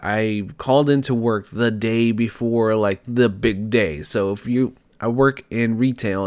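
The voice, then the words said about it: Raspy, sick-sounding voice. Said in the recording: “if you can tell by my tone of voice, my raspiness, I am not feeling great. I'm a little under the weather this week.”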